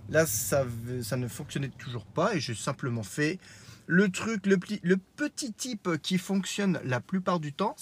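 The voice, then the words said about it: Strong Lorraine French accent. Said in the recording (French): “mon, je dirais, mon accent lorrain un peu trop proéminent”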